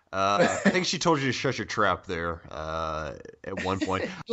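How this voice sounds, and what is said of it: Put-on deep bassy voice. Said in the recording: “Doing your big boy voice again. ... it sounds like you went into like this and threw some bass up in your voice”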